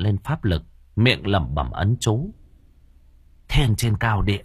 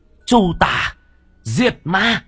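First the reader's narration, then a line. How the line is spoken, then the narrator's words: Bird's fierce cry. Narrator (Vietnamese): lam điểu hét lên một tiếng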